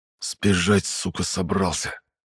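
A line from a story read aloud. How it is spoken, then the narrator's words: Whisper nearby. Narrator (Russian): Прошептал кто-то рядом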